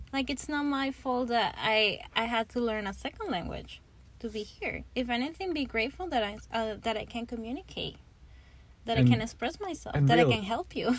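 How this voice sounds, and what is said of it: Venezuelan accent in English. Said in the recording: “you just have a Venezuelan English accent”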